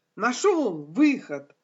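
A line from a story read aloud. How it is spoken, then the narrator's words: Exclamation. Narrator (Russian): воскликнул наконец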